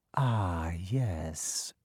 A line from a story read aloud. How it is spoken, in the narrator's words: said softly